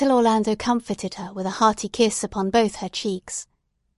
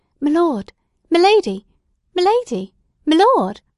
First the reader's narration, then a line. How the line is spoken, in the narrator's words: Grimstitch, who was overcome with emotion, and could do no more than gasp